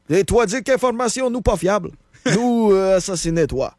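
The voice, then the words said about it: Put-on Russian accent, Québécois tinge. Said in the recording (French): “Moi, avoir un petit accent québécois au travers de mon accent russe... C'est un peu l'accent du bas du fleuve en même temps.”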